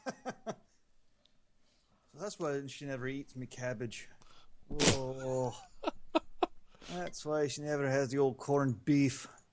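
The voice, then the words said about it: Put-on Scottish accent. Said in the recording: “he's Irish, not Scottish, so I don't know why I'm doing the Scottish voice”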